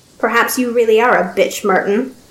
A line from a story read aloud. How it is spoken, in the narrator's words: the Baron said with a wicked little chuckle